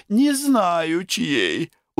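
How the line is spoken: Tired. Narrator (Russian): устало сказала Любовь Савельевна

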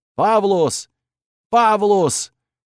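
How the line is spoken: Hoarse screaming. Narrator (Russian): заорал я, срывая голос

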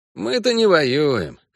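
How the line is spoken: Wry snort. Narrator (Russian): хмыкнул Эскель

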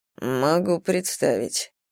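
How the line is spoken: Dry reply. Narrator (Russian): сухо ответил Зейн

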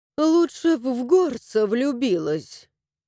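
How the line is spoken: Sighing. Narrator (Russian): вздохнула

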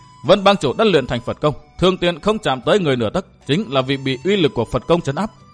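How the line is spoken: Laughing loudly. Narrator (Vietnamese): Thần Hồ cười lớn nói

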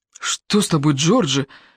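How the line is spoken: Frightened question. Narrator (Russian): испуганно спросил Бойд

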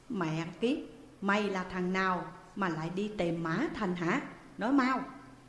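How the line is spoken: Raised, aggressive question. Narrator (Vietnamese): lên giọng hỏi

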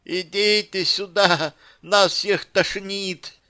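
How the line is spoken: Thin silly voice. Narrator (Russian): объявила Яна тоненьким глупым голоском

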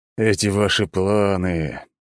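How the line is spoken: Moaning. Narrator (Russian): простонал принц

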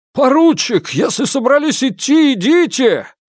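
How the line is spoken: Shouting over a blizzard. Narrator (Russian): Перекрывая визг метели, прокричал Волков

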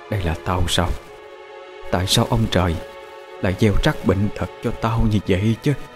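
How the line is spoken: Soft, rising to coughing screams. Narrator (Vietnamese): mụ còn nói chuyện nhỏ nhẹ, nhưng sau đó càng ngày mụ càng hét to lên, hét đến nỗi ho sặc sụa

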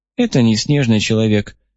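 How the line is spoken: Sad summary. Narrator (Russian): грустно резюмировала она

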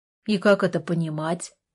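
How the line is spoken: Cold. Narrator (Russian): холодно спросил Артур

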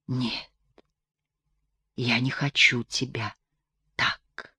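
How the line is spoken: Whisper. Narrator (Russian): прошептала она

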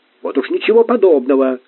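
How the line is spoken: Near bark. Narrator (Russian): чуть ли не рявкнул Сварог

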